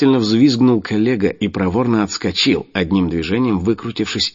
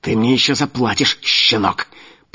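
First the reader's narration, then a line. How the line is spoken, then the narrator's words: Hissed. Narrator (Russian): прошипел Луканов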